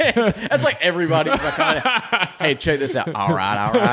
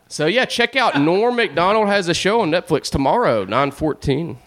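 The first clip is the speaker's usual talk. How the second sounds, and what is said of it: Matthew McConaughey impression, Southern drawl. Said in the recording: “That was a McConaughey impression. ... Sound just like him ... a Southern accent”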